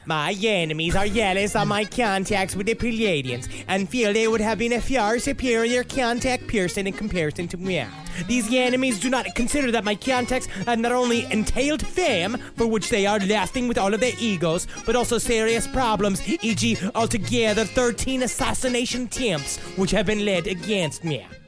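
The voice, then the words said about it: Cartman-like put-on accent. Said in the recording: “You didn't go into Jamaican. You did go into Cartman, but that was a great accent.”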